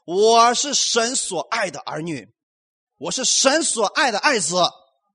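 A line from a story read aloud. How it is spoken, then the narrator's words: Bold, loud declaration. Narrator (Chinese): 勇敢的大声讲出来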